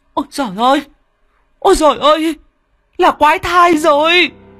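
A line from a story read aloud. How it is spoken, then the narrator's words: Shrieking. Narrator (Vietnamese): Mụ đỡ rú lên một tiếng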